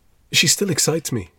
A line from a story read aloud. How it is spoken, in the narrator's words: he said